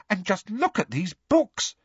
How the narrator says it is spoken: said Hermione excitedly

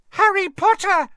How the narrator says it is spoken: she squealed

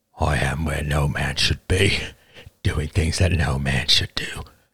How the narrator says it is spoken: he muttered

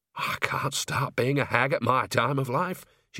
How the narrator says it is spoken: she muttered

